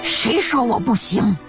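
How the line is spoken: Through gritted teeth. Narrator (Chinese): 咬牙切齿地挤出一行字

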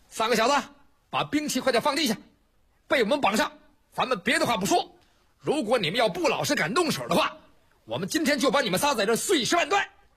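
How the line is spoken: Shouting. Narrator (Chinese): 就听有人喊

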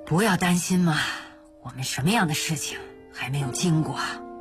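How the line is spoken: Sighing. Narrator (Chinese): 嘉禾就叹气说

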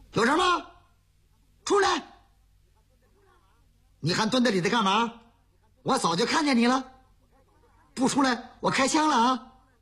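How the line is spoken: Enemy shouting into room. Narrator (Chinese): 敌人 冲着里屋喊

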